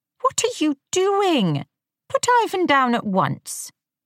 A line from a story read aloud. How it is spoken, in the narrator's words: said his wife, Veronica, in a sharp tone